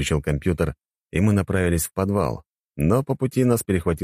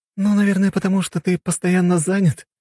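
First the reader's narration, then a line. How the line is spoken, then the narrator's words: Laughing young woman. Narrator (Russian): девушка рассмеялась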